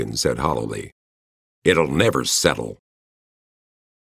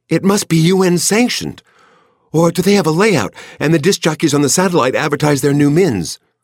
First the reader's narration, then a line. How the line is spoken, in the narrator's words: Fran said excitedly